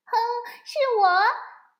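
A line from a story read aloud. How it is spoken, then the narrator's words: Crying out. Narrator (Chinese): 比比叫了起来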